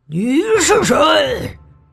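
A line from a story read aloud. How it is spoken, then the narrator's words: Dragon roaring. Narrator (Chinese): 龙咆哮着说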